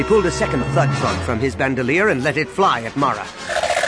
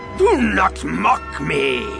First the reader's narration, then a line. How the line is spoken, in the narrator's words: Yeoman Carr roared